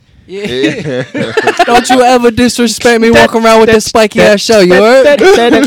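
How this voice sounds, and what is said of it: Exaggerated New York accent. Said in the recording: “I love ... fucking New York accent.”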